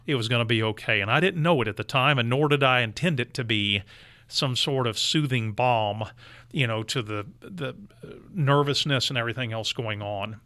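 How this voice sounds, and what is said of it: Texan accent. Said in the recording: “my Texan accent ... had an incredibly calming effect ... not being able to understand my Texan accent”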